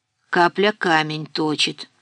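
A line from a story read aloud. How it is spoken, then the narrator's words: Grumbling. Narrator (Russian): пробурчал Дима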